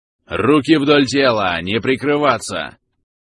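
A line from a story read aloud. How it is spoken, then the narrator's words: Huge overseer barking. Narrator (Russian): Рявкнул огромный надсмотрщик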